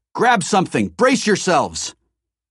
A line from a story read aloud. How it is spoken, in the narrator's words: Grinning, shouted